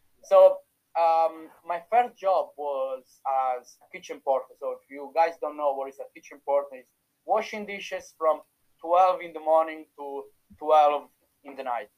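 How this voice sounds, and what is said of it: Italian accent. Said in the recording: “You can still feel my Italian accent, but it's much better right now after six years”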